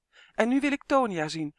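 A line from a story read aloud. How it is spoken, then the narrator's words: Called out. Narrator (Dutch): riep hij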